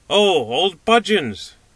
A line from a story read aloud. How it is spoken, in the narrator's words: cried the little man